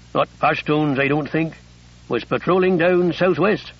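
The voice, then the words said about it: Broad West Country English accent. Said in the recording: “His accent was broad West Country English.”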